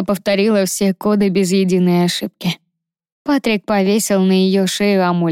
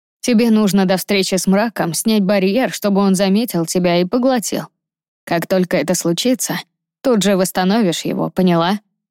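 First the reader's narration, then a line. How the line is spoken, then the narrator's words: Plain. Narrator (Russian): спросил Патрик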